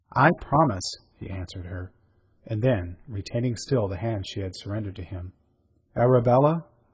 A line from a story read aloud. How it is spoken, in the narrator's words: he said very gently